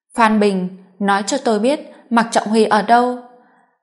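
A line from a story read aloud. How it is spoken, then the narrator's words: Furious roar. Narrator (Vietnamese): Hà Tư Kỳ gầm lên giận dữ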